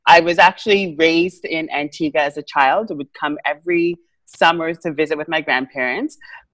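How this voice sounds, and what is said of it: Caribbean-accented English. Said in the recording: “people always say, how come you have an accent? I'm like, I have an accent.”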